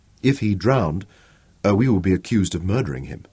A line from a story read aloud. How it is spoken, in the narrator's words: Shaza said softly